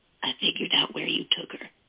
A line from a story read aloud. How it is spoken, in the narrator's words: he whispered